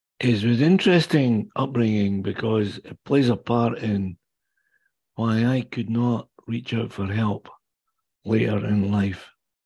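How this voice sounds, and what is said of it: Scottish accent. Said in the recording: “The accent you hear is not Canadian, obviously. I was born and raised in the Kingdom of Fife on the east coast of Scotland.”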